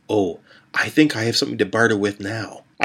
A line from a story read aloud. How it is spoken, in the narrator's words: whispered